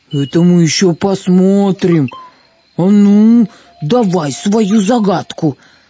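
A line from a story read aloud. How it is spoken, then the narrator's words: Growling ogre. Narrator (Russian): прорычал людоед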